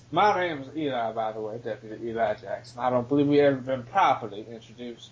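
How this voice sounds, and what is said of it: Put-on old Southern US accent. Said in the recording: “Not exactly the accent of a guy who has 25 points in the beat. ... This is the accent of Bible salesmen in the Confederacy.”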